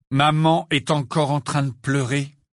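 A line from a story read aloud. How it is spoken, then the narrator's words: Heavy tone. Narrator (French): dit Fred d'un ton lourd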